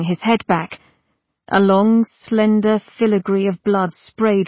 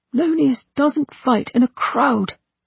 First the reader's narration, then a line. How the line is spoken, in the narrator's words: Ortus said tightly